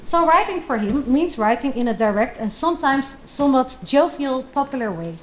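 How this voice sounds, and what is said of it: Strong Dutch accent. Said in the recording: “talk with a horrific Dutch accent.”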